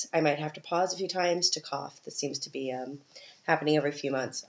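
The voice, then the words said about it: Congested voice from a cold. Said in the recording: “I have not recovered from my cold, as you can probably hear in my voice.”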